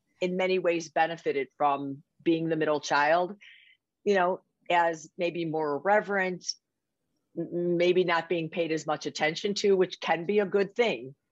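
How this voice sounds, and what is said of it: Strong Chicago accent. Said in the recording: “Sometimes people hear my accent and they are like, is that New York or Boston? ... I can't hear their accent the way I can yours”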